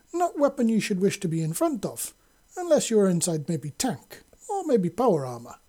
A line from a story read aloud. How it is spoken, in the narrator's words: Sasha said happily